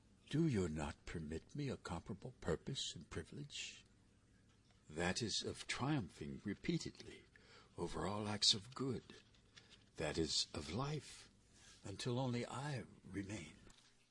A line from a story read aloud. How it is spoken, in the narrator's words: The snake sighed despondently and said